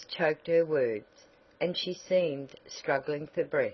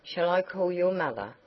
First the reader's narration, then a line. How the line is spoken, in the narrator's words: Dorothy asked anxiously